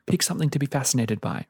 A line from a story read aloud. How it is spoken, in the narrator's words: Rishi snapped